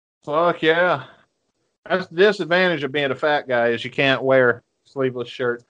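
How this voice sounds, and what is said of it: Southern US accent. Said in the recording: “I've got this southern accent”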